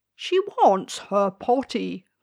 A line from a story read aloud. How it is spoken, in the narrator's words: cried the king